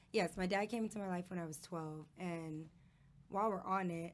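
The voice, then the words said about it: Low, quiet voice. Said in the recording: “she's struggling ... my voice is just low”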